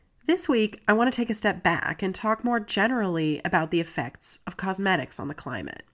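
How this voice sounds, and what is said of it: Congested, stuffy voice. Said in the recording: “I'm also getting over a bit of a cold, so if I sound congested”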